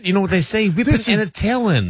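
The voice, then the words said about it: Cartoon character voice. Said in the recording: “What was that accent? ... He's doing a Bugs Bunny. ... it's still that Bugs Bunny range.”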